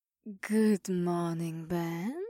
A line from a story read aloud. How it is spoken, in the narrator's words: Mira purred